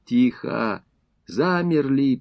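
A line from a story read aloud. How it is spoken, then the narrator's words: Whisper. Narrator (Russian): прошептал Крупенюк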